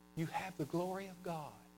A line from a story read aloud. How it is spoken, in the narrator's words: whispered in ear